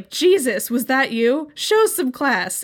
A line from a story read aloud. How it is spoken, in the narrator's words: The president would loudly proclaim